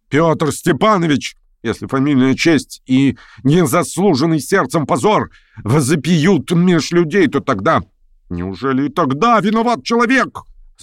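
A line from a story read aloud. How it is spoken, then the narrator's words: Roaring, carried away. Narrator (Russian): взревел он, вдруг забывшись по-давишнему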